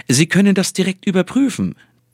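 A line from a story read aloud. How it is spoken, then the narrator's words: Triumphant, cheerful giant. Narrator (German): triumphierte der Hühne, fröhlich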